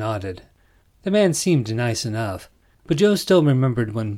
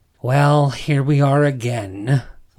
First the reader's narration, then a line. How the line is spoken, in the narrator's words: Wellington said with an exaggerated sigh